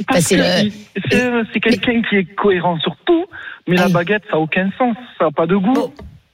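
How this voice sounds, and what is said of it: Regional French accent. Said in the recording (French): “on a le petit accent, en fait, j'adore”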